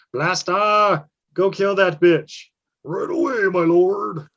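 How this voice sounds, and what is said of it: Servile lackey character voice. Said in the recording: “I sounded like a lackey there for a second”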